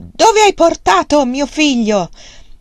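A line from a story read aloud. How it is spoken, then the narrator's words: Shouted. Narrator (Italian): Wang Lung gli gridò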